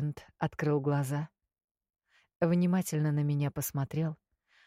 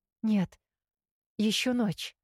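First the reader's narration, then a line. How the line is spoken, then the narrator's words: Frightened reply. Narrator (Russian): испуганно ответила я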